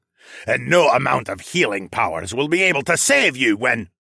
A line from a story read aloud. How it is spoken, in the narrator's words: the man snarled